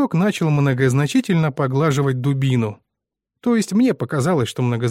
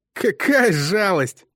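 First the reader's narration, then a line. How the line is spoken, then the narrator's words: Through gritted teeth. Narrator (Russian): процедил Бой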